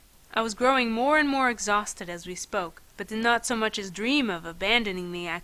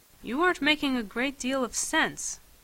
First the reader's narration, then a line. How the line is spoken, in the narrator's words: he said gently